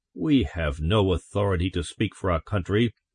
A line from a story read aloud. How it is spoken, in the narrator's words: Morse said stiffly